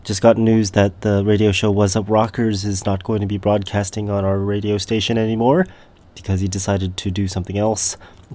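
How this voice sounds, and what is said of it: Stuffy, sick-sounding voice. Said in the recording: “I've got, I don't know, a cold or something like that ... So I've got my radio voice this week.”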